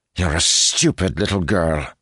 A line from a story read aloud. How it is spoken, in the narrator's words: he spat furiously